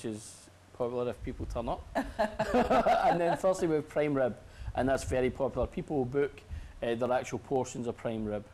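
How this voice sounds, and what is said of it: Strong Scottish Glasgow accent. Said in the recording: “I'm sensing an accent. ... I'm from Scotland ... I'm from Glasgow, Govan. ... I've still got a very strong accent.”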